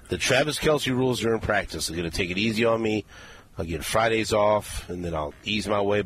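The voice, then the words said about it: Strained, failing voice. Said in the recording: “my voice can hold up for the show. And it's already failing me right now ... my voice is already almost kaput”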